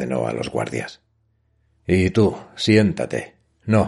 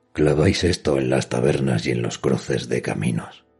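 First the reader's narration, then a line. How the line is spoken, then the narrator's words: Quiet voice. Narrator (Spanish): dijo con voz queda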